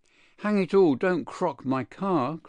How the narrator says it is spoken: cried the traveller

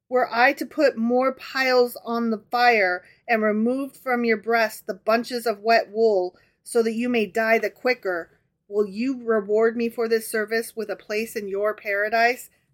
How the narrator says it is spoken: asked the Roman

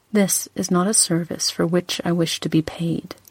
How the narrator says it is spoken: I said quietly

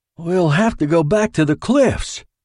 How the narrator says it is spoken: Marcia cried

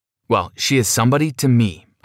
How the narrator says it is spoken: I said in an angry tone

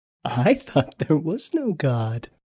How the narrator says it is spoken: laughed

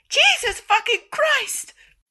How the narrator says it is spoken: The priest's screams echoed about the cathedral

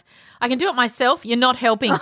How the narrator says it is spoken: my daughter very quickly responded with yelling with her communication device

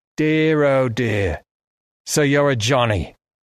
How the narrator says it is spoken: he said, in a suddenly broad Australian accent

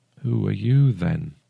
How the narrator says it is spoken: asked softly

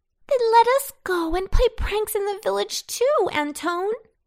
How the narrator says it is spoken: cried Babette

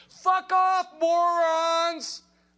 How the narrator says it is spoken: someone screams

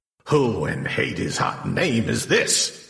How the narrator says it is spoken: he growled

